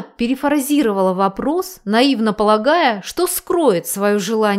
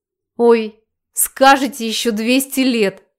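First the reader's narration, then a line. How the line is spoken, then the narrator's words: Loud laughter. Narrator (Russian): захохотала мамуля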